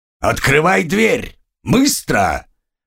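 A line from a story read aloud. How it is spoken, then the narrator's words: Stranger barking harshly. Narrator (Russian): рявкнул кто-то незнакомый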